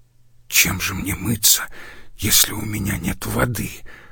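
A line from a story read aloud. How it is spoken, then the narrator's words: Whisper. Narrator (Russian): прошептал он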